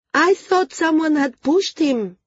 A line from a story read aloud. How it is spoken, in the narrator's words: she shouted